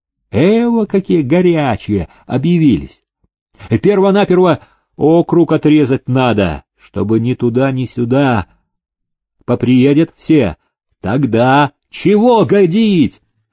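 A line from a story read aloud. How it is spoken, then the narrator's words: Defiant shout. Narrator (Russian): выкрикнул строптивый сотник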